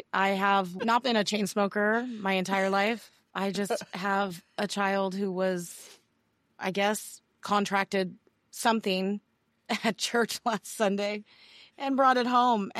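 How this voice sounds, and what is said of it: Raspy, hoarse voice. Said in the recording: “Your voice is particularly sexy today. ... It's very raspy.”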